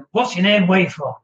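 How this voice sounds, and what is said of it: Put-on northern accent. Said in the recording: “in a northern accent”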